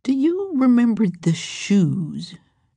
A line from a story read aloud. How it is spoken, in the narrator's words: Harriet asked dreamily